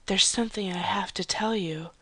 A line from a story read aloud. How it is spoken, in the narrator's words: she said softly